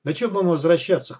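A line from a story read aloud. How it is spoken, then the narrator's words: Uncertain snort. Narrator (Russian): хмыкнул второй, но как-то неуверенно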